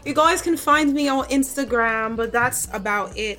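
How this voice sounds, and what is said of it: Fake British accent. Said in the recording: “this is my fake British accent.”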